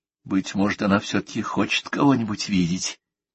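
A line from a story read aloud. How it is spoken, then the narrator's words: Quiet near-whisper question. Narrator (Russian): тихо, почти шепотом спросил Дирк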